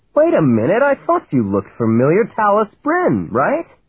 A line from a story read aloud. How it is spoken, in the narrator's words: he exclaimed